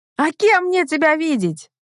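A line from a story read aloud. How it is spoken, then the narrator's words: Shouted, holding back tears. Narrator (Russian): крикнула я, с трудом сдерживая слезы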